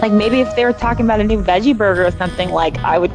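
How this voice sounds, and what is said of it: Los Angeles accent, Kardashian-like voice. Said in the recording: “I have a Kardashian voice. I wish I could get rid of it. It's a total LA voice.”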